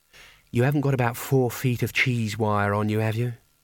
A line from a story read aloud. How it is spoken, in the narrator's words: she said wistfully